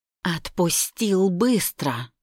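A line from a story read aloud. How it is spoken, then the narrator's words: Hissed. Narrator (Russian): прошипела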